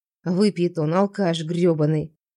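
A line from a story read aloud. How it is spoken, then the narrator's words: Grumbling. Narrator (Russian): проворчала я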